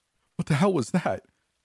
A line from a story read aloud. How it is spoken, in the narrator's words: Julia asked, tears choking her vision